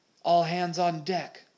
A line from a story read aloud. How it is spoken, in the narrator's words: Stash hollered